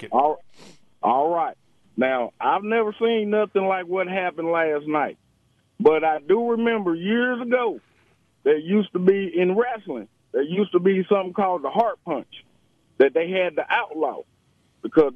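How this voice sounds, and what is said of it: Southern American accent. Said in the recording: “I'm going to talk with my Southern accent.”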